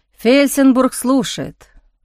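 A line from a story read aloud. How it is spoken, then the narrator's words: Grumbling, shivering with cold. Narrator (Russian): проворчал он, передернувшись от холода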